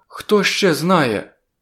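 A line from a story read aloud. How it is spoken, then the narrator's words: Frightened question. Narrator (Ukrainian): злякано запитала вона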